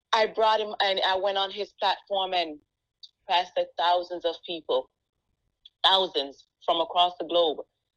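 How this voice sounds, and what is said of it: Jamaican accent. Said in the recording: “my accent ... I have an accent. I'm Jamaican. People won't understand me”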